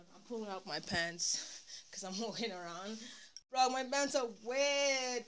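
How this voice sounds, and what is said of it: Out of breath while talking. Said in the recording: “I'm running out of breath. I'm tired. I'm actually walking around”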